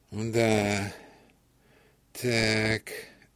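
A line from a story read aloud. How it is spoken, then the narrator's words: Slow, sighing. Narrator (Russian): медленно проговорил фельдшер и вздохнул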